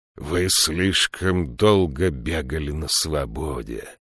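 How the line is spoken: Hissed. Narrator (Russian): прошипел он

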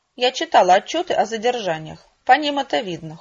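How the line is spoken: Cold reply. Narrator (Russian): холодно ответила я

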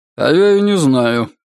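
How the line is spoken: Gloomy. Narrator (Russian): мрачно ответил маркиз

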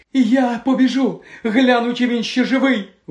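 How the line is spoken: Exclaimed. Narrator (Ukrainian): вигукнула Пенсі

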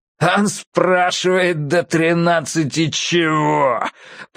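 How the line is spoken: Growled. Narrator (Russian): прорычал беловолосый

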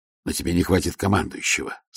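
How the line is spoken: Plain. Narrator (Russian): сказал Ваймс

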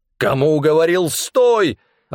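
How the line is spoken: Angry growl. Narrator (Russian): рассерженно рычал Амнис

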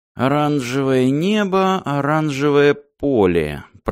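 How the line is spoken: Muttered. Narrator (Russian): пробормотал Мартин

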